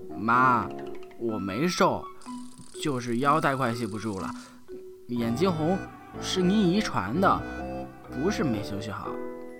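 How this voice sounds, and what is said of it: Slurred, mumbled indistinct speech. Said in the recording (Chinese): “一直吃到二兔的门牙打颤，只能用含混不清的口音回答妈妈的各种问题。”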